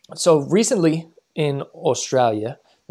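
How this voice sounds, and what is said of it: Put-on Australian accent. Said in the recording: “that's my Australia ... You're accent. Very good at that.”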